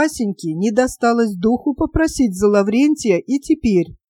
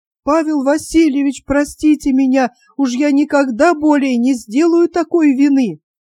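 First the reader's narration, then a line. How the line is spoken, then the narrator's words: Old man's trembling shout. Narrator (Russian): старика, который дрожащим голосом кричал ему вслед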